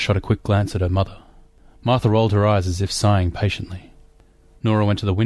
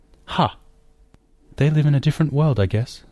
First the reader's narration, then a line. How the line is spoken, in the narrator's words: Martha sighed